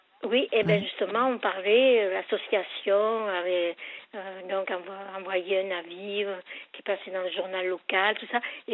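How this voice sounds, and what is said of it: Mixed Marseille regional French accent. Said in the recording (French): “excusez-moi mon accent ... Il est mélangé là, entre Marseille et ici.”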